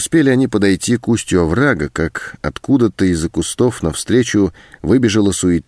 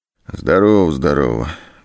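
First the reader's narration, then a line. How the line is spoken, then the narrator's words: Muffled, hollow voice. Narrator (Russian): глухим голосом ответил мужчина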